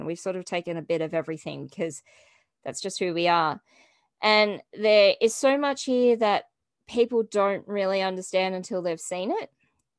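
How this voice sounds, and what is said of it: Australian accent. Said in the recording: “I apologize profusely for our accent. Nobody sounds like us. It is a very, very interesting accent. And you can hear an Australian before you see them.”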